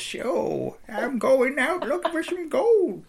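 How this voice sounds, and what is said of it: Old West prospector American accent. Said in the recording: “my old West prospective voice ... the only American accent you can do is”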